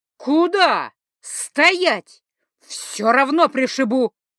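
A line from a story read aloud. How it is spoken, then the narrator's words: Roaring like wounded rhino. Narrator (Russian): Раненым носорогом взревела охотница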